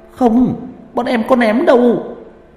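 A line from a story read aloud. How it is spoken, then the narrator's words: Stammering group. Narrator (Vietnamese): Cả lũ lắp bắp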